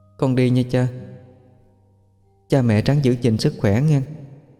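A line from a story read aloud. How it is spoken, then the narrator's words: Very sad. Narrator (Vietnamese): nó nói với giọng điệu buồn lắm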